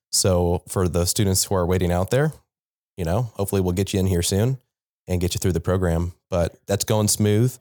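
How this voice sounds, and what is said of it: Congested, allergy-affected voice. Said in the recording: “trying to recover from allergies ... I can tell ... apologies for my stupid voice”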